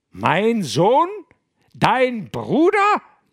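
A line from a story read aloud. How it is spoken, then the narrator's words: Shrieking. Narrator (German): kreischt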